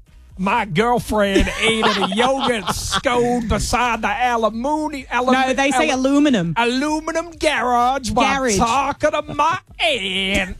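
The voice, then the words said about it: Attempted Boston accent, McConaughey to Foghorn Leghorn. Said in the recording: “try a Boston ... He started as Matthew McConaughey and ended as Foghorn Leghorn.”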